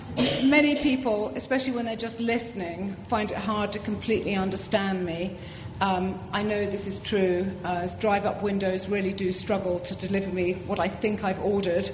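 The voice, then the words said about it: Strong British accent. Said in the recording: “my British accent remains pretty strong”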